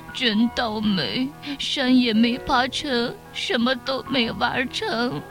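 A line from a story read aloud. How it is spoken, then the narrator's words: Little lamb crying. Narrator (Chinese): 小羊随着哭起来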